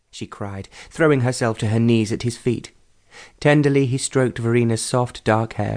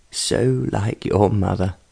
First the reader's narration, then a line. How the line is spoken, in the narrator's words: in a voice that was choked with emotion